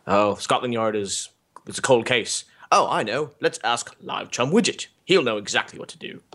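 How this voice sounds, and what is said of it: Poor put-on English accent. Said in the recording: “English accent fail ... Never really mastered the accent, though”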